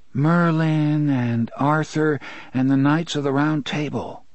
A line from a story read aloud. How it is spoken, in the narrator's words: Jake said dreamily